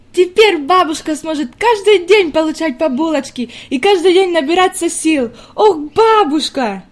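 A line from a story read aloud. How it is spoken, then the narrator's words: Girl's sudden jubilant exclamation. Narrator (Russian): неожиданно воскликнула девочка с еще большим ликованием в голосе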